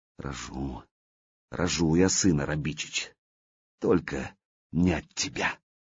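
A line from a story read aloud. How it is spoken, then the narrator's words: Vengeful whisper. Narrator (Russian): княжна прошептала мстительно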